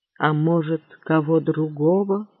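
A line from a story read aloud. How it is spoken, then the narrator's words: Muttering. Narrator (Russian): пробормотал он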